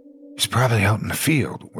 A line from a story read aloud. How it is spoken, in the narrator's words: whispered one of our friends